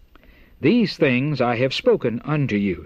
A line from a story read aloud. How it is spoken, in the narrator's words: he said